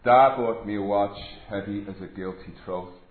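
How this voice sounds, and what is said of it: Deliberately bad put-on Irish accent. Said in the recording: “attempting a really bad Irish accent”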